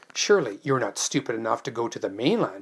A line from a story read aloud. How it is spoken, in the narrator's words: spluttered